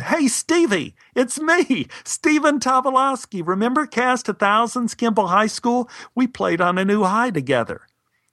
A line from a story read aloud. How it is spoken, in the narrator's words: My enthusiasm got the better of me, screamed